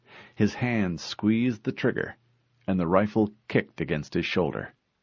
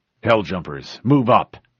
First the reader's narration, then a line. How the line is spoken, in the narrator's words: he barked into the radio